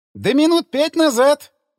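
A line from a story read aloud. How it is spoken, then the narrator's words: Smiling. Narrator (Russian): улыбнулся Селин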